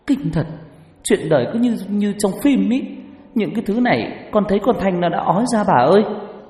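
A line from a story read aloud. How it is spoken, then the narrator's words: Blurted out. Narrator (Vietnamese): Tôi buột miệng thốt lên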